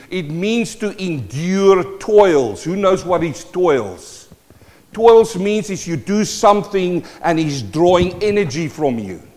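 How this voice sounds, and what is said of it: South African Kiwi accent. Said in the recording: “my South African Kiwi accent”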